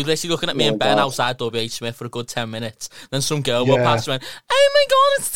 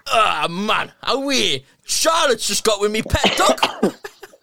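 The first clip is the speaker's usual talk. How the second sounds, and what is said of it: Put-on Geordie accent. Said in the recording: “my Geordie impression.”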